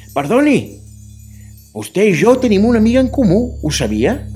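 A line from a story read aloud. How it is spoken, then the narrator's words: Calling out. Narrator (Catalan): em va cridar i em va dir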